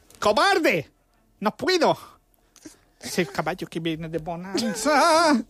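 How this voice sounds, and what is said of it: Imitates another person's voice. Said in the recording (Catalan): “Imita'l. ... Chiquito.”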